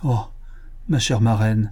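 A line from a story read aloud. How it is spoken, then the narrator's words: Muffled exclamation behind hands. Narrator (French): s'écria Antoine, en couvrant sa figure de ses deux mains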